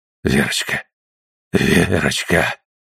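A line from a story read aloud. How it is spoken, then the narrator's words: Breathless, uncertain whisper. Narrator (Russian): прошептал он, задыхаясь, и неуверенно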